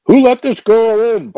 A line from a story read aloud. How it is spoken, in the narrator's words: barked a red-faced detective who appeared to be in charge